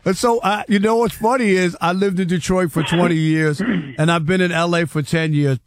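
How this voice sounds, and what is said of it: New York accent. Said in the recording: “I love your accent being from out east ... You think I'm from New York? ... It sounds like my cousin Vinny ... the New York accent just won't go anywhere”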